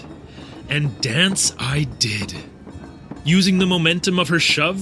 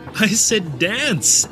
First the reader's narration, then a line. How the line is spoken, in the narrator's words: Erika said between a hearty laugh